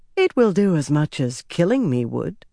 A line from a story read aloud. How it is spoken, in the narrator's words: the woman said dryly